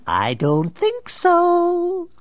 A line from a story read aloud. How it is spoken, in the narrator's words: Cackling with demented glee, Nigma shot back